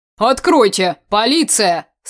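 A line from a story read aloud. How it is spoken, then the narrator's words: Menacing voice. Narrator (Russian): Страшным голосом произнес капитан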